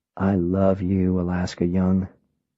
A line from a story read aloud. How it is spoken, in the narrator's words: As she slept, I whispered